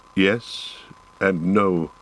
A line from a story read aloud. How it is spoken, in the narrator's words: he answered slowly